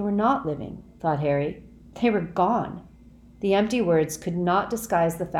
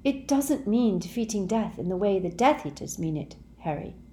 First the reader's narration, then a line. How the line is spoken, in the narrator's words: said Hermione, her voice gentle